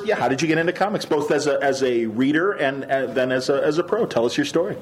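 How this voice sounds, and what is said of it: Polished radio announcer voice. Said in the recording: “You have a lovely radio voice. ... I'm a Chicago radio guy.”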